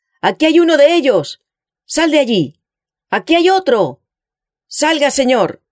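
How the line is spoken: Shout. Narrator (Spanish): gritó

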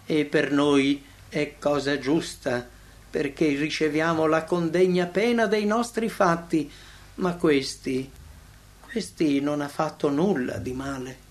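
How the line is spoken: Sighing. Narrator (Italian): disse sospirando

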